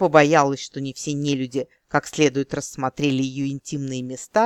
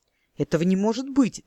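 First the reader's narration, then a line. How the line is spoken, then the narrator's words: Exclaiming in disbelief. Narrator (Russian): воскликнула сьючка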